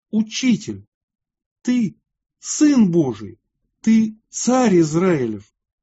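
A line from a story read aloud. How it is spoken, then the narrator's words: Exclaiming. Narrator (Russian): воскликнул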